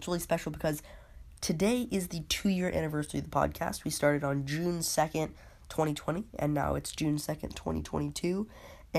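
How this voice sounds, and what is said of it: Sick, altered voice. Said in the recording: “I'm still sick, so I apologize if my voice sounds a little bit different”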